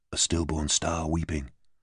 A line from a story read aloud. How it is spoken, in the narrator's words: Royan whispered reverently